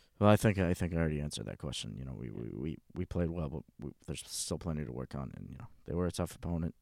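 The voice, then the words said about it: Flat, emotionless, indifferent imitated voice. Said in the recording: “How was my Belichick impression? ... You just basically have to sound like you don't give a fuck about anything. ... really lose any empathy ... Just lose all emotion”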